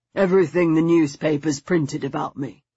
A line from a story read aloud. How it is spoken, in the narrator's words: he said in a hollow voice